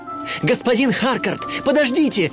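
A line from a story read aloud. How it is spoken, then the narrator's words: Shouting. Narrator (Russian): кричал он директору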